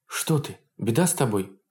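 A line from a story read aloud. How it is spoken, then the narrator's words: Frightened question. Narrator (Russian): испуганно спросила Анна Алексеевна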